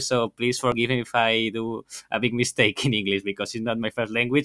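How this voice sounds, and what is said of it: Strong Spanish accent in English. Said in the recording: “as you can hear with my strong accent, I'm Spanish ... your Spanish one”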